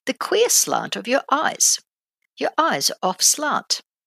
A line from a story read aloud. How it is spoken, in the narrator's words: the student exclaimed